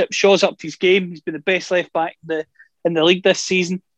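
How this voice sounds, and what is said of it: Non-English accent. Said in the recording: “as you can tell by the accent, I'm not English”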